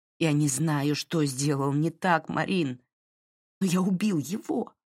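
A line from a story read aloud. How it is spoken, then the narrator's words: Half-strangled voice. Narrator (Russian): произнес Дерек таким полузадушенным голосом, словно она действительно сжимала его горло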